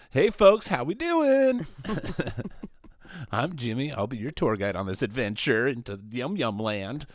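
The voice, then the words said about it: Higher-pitched customer service voice. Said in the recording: “my higher pitched gay voice ... Higher customer service voice ... customer service voice”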